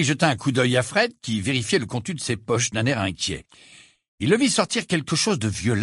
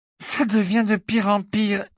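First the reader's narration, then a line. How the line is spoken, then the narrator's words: Thick, slurred voice. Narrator (French): répondit Cathy d'une voix pâteuse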